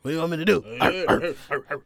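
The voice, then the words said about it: Imitates another person's voice. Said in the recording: “I sound like a little DMX there”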